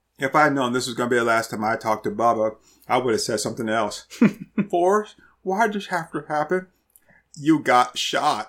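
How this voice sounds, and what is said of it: Forrest Gump character impression. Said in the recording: “You just do such a good Forrest Gump impression.”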